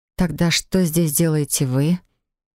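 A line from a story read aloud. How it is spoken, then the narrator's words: Hoarse, slightly bitter voice. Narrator (Russian): Мой голос звучал хрипло, некрасиво и с легкой горечью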